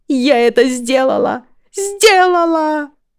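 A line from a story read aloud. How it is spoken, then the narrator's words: Squealing with joy. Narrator (Russian): визжащую от радости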